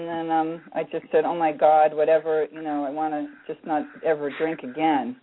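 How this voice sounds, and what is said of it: Voice sounds younger than age. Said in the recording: “I sound younger ... I thought you were when you said you were 17 or 18”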